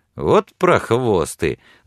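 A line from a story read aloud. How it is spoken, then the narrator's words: Laughing. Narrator (Russian): засмеялся Билли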